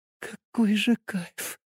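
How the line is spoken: Quiet. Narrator (Russian): тихонько сказала она

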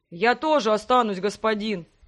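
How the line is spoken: Sudden deep troll bass. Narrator (Russian): неожиданно пробасил давешний зомби-тролль

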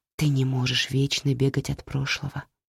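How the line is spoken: Whisper. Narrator (Russian): прошептала Лючиана

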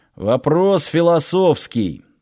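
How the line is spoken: Guard grumbling. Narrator (Russian): пробурчал один из охранников

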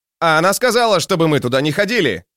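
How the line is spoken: Shout with full mouth. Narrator (Russian): крикнул ему вслед Антауп с набитым ртом

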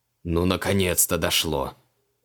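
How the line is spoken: Exasperated snort. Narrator (Russian): фыркнул маг

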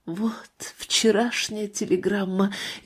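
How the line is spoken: Barely audible grandmother's whisper. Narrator (Russian): еле слышно прошептала бабушка

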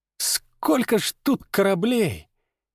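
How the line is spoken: Awed involuntary breath. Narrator (Russian): невольно выдохнул Степка

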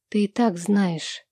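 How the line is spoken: Quiet reply. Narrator (Russian): тихо отвечаю

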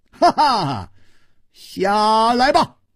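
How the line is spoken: Laughing rebuke. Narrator (Chinese): 楚留香笑斥道

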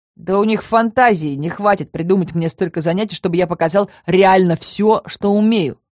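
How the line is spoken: Snorting young man. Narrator (Russian): фыркнул парень

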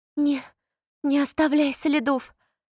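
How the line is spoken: Pleading. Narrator (Russian): взмолилась Поппи

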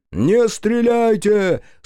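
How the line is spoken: Shouting again. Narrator (Russian): снова закричал капитан

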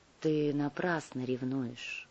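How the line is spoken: Quiet. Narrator (Russian): негромко сказала Кара

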